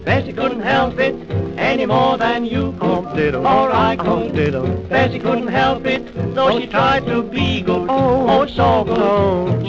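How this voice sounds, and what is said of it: Thick Australian accent. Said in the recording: “reading aloud a very upper class English text with a thick Australian accent”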